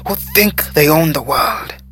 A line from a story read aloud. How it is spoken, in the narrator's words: interrupted bitterly